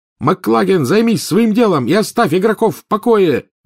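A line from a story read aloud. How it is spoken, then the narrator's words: Roaring. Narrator (Russian): взревел Гарри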